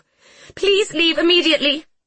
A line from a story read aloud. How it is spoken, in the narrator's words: the woman shrieked